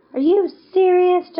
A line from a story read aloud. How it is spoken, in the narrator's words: Justin shouted, his voice barely audible over the pulsing beat of the music